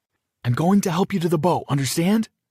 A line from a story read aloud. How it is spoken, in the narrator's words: I shouted to Aria